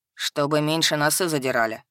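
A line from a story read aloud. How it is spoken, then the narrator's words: Dean's wry snort. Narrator (Russian): хмыкнул декан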